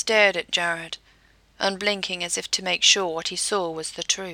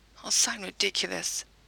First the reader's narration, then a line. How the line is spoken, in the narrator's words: Jensen whispered, as he blushed a little